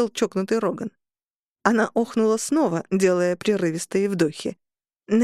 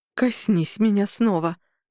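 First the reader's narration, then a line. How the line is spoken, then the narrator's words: Breathy. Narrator (Russian): выдохнула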